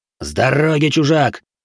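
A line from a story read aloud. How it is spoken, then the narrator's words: Barked. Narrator (Russian): рявкнул один из преследователей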